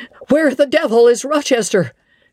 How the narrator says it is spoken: cried Colonel Dent

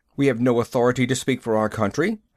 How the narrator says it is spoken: Moss said stiffly

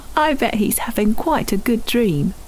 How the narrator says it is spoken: Tim chuckled

